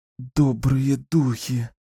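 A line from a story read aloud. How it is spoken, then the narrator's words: Whisper. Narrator (Russian): прошептала Кэлен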